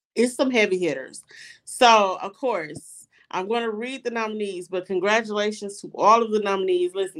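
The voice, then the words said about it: Congested, strained voice. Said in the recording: “I have a cold, so I'm struggling a little bit”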